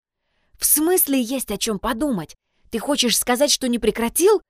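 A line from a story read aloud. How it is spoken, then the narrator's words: Anxious whisper. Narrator (Russian): взволнованно зашептала она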